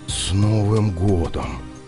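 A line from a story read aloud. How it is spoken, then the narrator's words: Horrified whisper. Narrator (Russian): с ужасом прошептал Виктор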